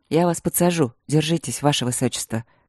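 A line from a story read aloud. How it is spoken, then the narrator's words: Calm. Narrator (Russian): сказал он спокойно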